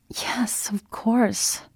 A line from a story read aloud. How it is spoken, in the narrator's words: she said weakly